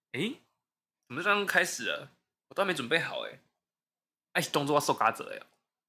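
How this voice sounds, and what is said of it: Kaohsiung Taiwanese-accented Mandarin. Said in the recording (Chinese): “听你这个口音，感觉是高雄来的”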